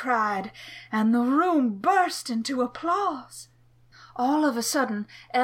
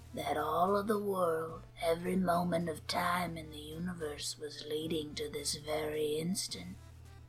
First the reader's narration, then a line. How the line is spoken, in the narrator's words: said in a raspy voice